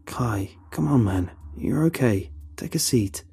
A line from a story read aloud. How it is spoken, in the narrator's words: Carl suggests calmly